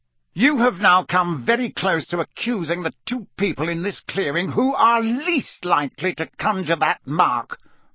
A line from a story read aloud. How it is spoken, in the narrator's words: barked Mr